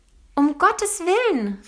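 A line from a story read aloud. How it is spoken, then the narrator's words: Wife's call. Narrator (German): rief seine Frau, Ponys Mutter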